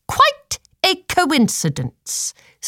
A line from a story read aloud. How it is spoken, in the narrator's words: snapped Lady Tenny